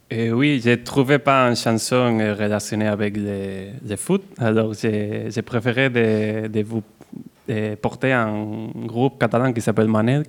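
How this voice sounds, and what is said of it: Catalan accent speaking French. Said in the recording (French): “morceau catalan. Aux couleurs de votre accent”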